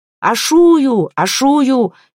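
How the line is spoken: Shouting. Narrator (Russian): кричал Калакир

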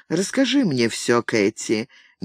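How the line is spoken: Tender request. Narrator (Russian): нежно попросил он

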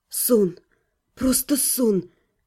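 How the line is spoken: Relieved exhale. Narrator (Russian): облегченно выдохнула

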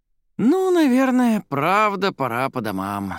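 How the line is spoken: Sleepy. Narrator (Russian): сонно проговорил Денис

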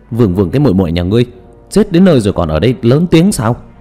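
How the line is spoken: Trembling loud scolding monk. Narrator (Vietnamese): Hòa thượng kia cả người run rẩy, liền to gan lớn tiếng mắng

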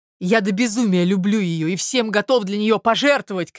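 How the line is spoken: Shouted. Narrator (Russian): кричал Мозгляков

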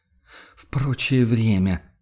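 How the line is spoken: Tired sigh. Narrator (Russian): вздохнул охотник устало

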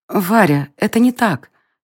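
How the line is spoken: Quiet, barely audible. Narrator (Russian): тихо сказала она, и еле слышные нотки ее голоса

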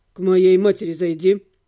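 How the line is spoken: Grumbled. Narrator (Russian): буркнул блондин

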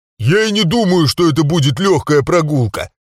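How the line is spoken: Hollow boom from barrel. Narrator (Russian): прогудел я из бочки

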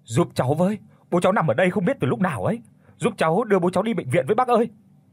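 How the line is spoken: Desperate shout. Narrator (Vietnamese): Có người hét lên

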